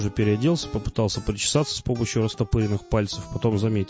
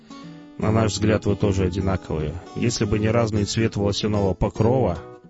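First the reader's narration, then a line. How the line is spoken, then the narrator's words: Displeased grumbling. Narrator (Russian): Шидло недовольно заворчал и буркнул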